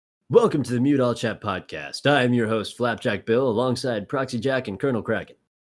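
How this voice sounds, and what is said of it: Radio announcer voice. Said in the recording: “put on my radio voice”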